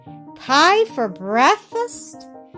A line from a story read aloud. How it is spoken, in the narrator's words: cried Peter